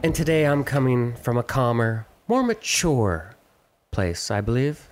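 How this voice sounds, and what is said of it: Smooth, velvety voice. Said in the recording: “Your voice sounds so velvety right now.”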